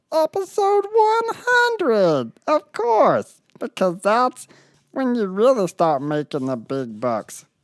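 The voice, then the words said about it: Odd cartoon character voice. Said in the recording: “How do you always talk like that? ... I'm not gonna talk like a normal human”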